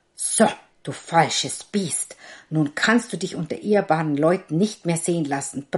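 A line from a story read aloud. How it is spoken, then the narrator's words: Angry roar. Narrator (German): brüllte er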